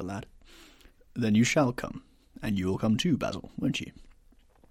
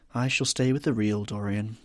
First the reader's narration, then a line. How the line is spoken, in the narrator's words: he said sadly